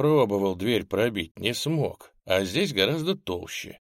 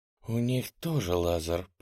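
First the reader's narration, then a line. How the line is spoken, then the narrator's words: Whisper. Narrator (Russian): прошептала Нель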